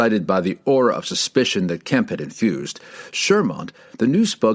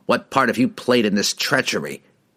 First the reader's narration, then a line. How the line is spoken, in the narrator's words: he spat at his bitter rival